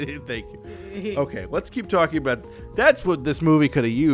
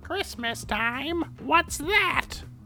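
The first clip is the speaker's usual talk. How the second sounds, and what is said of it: Skeletor cartoon villain voice. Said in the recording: “that was my Skeletor impression.”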